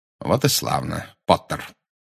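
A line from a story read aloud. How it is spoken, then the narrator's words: Cold. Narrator (Russian): холодно сказал Снег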